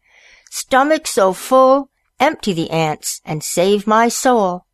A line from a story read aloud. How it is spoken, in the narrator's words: turkey cried